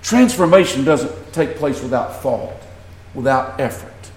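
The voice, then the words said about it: Southern American accent. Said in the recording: “I talk like a Southerner. Why do I talk Southern? ... I was born in the South.”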